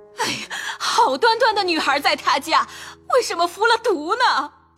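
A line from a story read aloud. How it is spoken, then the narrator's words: Crying and wailing. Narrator (Chinese): 哭着喊着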